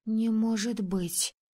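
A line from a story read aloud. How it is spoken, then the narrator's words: Breathless exhale. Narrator (Russian): выдохнула я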